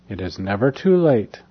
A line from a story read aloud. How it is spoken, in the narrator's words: said the seer calmly